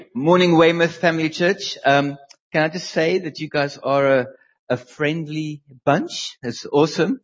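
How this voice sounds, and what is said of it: South African accent. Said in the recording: “you probably hear from my accent that I'm not local ... Leanne grew up in South Africa. And so did I.”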